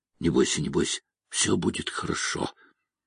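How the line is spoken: Soft whisper in ear, woman. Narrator (Russian): Джумагуль зашептала на ухо

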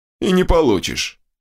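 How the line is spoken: Warrior's snort. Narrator (Russian): хмыкнул воин

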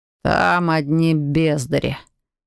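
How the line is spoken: Grumbling mutter. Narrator (Russian): буркнул Илай

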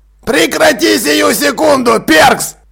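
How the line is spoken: Barked. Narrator (Russian): гаркнул Джекрам

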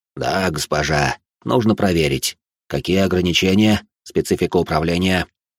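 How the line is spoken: Hoarse voice. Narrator (Russian): Хриплый голос

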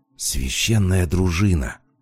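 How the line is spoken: Whispered. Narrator (Russian): почему-то шепотом ответила Рада

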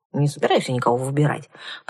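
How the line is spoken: Grumbling. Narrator (Russian): проворчала я

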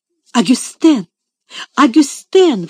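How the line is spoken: Exclaiming. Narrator (Russian): воскликнула мисс Офелия

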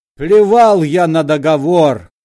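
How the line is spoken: Shouting. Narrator (Russian): кричал он

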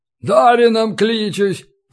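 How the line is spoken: Hoarse wheeze. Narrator (Russian): просипел он

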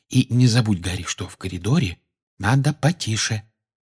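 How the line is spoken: Whispered reminder. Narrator (Russian): шепотом напомнила ему Гермиона

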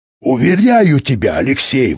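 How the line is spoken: Enthusiastic exclamation. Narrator (Russian): воскликнул Юрковский с подъемом

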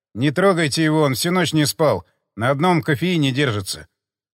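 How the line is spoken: Mumbled request. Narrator (Russian): Попросил Бородулина, пробормотал

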